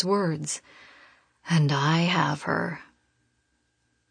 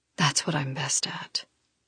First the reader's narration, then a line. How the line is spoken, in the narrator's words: he whispers